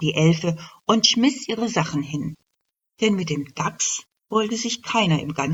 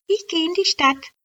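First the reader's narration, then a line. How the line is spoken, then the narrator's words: Called out. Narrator (German): rief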